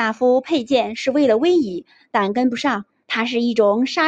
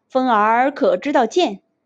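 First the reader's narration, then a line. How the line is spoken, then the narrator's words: Smiling question. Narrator (Chinese): 徐庶笑着问道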